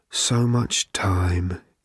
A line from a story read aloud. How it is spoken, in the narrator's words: it groaned